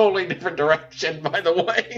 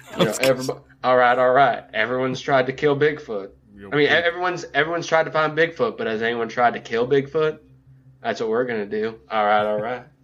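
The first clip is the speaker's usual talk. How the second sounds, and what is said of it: Vaguely southern Matthew McConaughey impression. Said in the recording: “vaguely southern accent ... With your Matthew McConaughey?”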